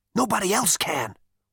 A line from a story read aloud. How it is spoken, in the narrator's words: whispered Zaphod